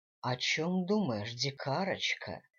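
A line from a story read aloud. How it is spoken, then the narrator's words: Seductive whisper. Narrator (Russian): соблазнительно прошептал Дэниел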